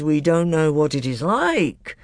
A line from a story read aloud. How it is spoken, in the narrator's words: grumbled the Telmarines